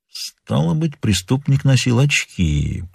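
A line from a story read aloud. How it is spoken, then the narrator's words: Detective mumbling. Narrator (Russian): пробормотал сыщик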